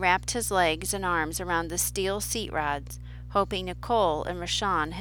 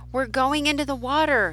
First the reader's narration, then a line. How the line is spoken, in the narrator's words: he shouted